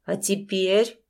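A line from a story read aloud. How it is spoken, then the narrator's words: Icy question. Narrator (Russian): спросил Финский ледяным тоном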